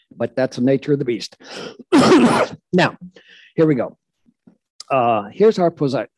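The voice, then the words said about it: Congested voice with a cold. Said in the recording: “I have a cold.”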